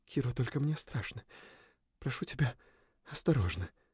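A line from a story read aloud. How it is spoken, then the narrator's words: Whispered plea. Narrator (Russian): взмолилась она шепотом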